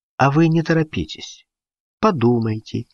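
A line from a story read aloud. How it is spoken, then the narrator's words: Calm advice. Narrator (Russian): спокойно посоветовал Гуров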